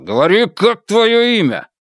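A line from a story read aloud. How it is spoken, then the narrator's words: Shouting. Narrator (Russian): Один из них кричал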